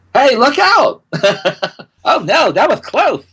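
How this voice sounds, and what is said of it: Cartoon rabbit character voice. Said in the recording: “make the little lemur character sound like Roger Rabbit ... great impersonation”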